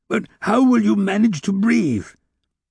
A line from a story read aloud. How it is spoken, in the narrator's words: Fauchelevent, recovering a little, cried